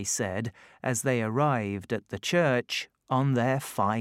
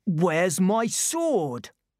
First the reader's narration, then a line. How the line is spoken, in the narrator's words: Suddenly, Kay shouted